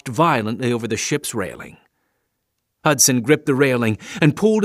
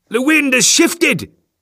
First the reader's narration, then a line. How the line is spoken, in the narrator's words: he cried